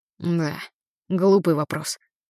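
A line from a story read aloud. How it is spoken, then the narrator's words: Muttered. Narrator (Russian): пробормотал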